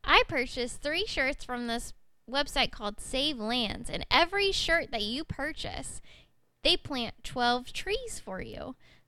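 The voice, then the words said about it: Country accent. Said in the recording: “my country accent ... Yes, I am smiling at that country accent.”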